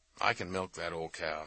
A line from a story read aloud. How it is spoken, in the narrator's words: she said